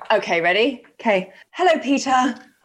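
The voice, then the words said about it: Calm, gentle greeting. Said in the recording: “try it in a calmer voice”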